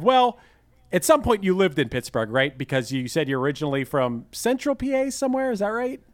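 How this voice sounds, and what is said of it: Pittsburgh accent. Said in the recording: “you complimented, or I don't know, I guess that was a compliment, my Pittsburgh accent”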